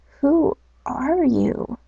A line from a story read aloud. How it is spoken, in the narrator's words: asked the bee in a tiny voice